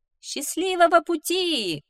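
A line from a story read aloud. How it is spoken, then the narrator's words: Rogue shouting. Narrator (Russian): крикнул плут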